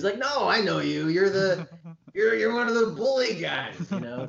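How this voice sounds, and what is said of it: Imitates another person's voice. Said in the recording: “great Seth Rogen impression”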